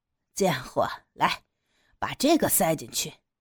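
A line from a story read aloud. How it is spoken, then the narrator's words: Lewd laughing. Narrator (Chinese): 黑人淫荡的笑着说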